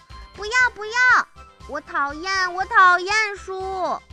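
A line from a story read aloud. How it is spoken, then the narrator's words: Loud child. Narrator (Chinese): 她大声地说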